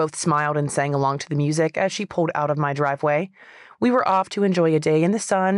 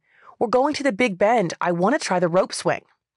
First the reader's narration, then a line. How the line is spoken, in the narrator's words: With music blaring in the background, she yelled to me